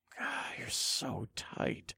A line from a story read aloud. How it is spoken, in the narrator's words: I murmured in a low voice